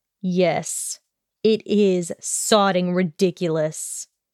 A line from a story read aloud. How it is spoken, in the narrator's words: he growled